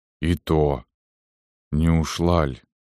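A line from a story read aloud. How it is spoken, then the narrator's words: Dull, muffled voice. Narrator (Russian): сказал глухо после долгого молчания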